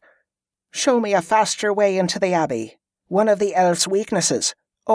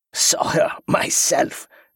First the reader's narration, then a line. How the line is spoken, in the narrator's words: the Malakan cackled, his voice getting stronger